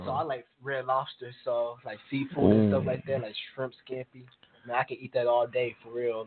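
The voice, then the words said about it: East Coast American accent. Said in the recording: “Kind of the East Coast accent, too. Like, the way you pronounce certain words.”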